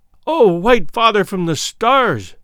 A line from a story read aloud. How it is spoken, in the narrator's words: cried